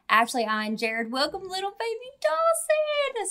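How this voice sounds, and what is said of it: Cooing baby voice. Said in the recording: “So sorry for my baby voice.”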